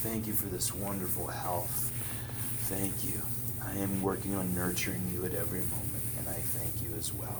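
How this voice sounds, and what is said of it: Calm, lowered voice. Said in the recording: “my voice has come down even like an octave”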